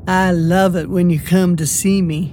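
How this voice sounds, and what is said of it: Sultry purring seductive voice. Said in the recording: “The saloon girl purred in her sexiest voice.”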